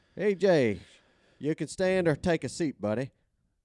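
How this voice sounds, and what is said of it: Jim Crane impression, thick Houston accent. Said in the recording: “your accent's a little thicker than it used to be. ... Houston”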